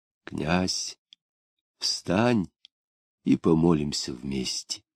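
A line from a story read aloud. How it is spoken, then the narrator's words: Quiet. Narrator (Russian): тихо сказал он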